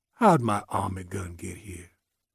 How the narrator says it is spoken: muttered

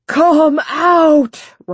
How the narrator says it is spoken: Rideout shouted

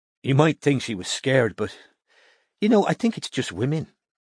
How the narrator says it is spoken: sighed Una

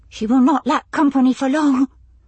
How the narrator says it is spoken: Olana blurted it out

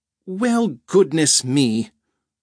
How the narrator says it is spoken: Rhoda gasped

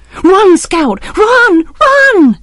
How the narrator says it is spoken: Jem screamed

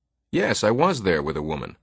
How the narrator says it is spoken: Farmer exclaimed

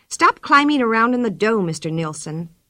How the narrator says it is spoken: she said crossly

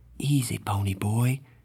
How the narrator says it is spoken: he said softly

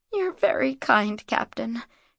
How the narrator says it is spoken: she murmured, trying her best to blush shyly

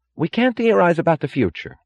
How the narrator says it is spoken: cried Wesley Mooch

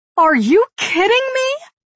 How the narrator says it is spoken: She shrieks

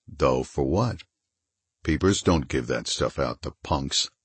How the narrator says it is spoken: The purring voice said gently

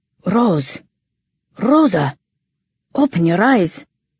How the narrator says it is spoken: his voice so strained, so frantic

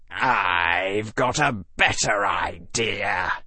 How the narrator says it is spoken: hissed the largest Slytherin

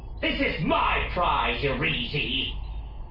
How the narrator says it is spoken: Roscoe snarled

